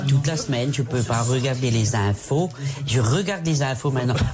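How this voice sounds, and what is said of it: Strong Alsatian French accent. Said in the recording (French): “C'est quelle région, c'est quoi? C'est l'Alsace? C'est un accent, vraiment. ... Oui, c'était l'Alsace”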